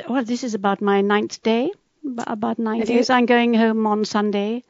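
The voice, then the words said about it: English London accent. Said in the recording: “You sound like the Queen. ... I think it's called a sort of a London accent ... as I was sort of brought up in London, I suppose I do have a London accent”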